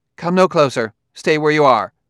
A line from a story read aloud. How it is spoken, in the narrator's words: A female voice said sharply